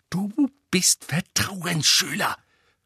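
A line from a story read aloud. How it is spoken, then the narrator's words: Snapping. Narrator (German): fauchte Hermine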